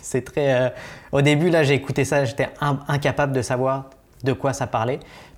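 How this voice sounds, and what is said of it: Pronounced regional French accent. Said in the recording (French): “tu as, quand même un accent prononcé”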